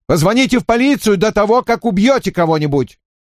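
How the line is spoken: Shouted after someone. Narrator (Russian): Я крикнул вдогонку

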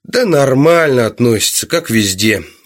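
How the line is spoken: Lazy. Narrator (Russian): лениво сказал он

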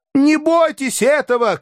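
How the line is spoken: Shouting after someone. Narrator (Russian): крикнул вслед Барменталь

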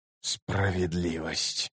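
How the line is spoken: Furious whisper. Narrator (Russian): яростно прошептал Ном

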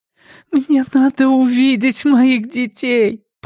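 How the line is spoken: Moaning. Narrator (Russian): простонала она

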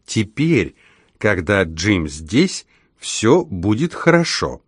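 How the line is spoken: Slow, clear, smiling speech. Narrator (Russian): Анжелина с улыбкой проговорила медленно и отчетливо

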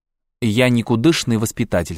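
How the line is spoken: Plain. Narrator (Russian): сказал дед

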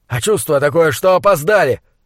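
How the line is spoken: Yelling. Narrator (Russian): заорал Ваале

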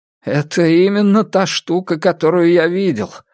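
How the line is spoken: Exclamation. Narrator (Russian): воскликнул врач

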